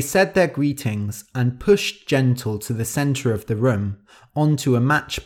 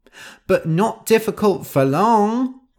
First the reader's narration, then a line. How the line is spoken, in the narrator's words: cried Nosy